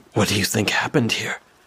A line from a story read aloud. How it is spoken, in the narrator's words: I whisper in disbelief